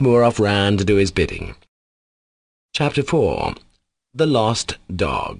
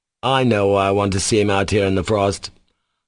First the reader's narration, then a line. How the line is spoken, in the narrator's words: Kolya cut him short, in the despotic tone he was fond of adopting with small boys